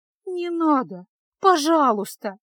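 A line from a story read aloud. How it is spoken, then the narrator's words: Tearful pleading. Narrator (Russian): жалобно молила Феска, заливаясь слезами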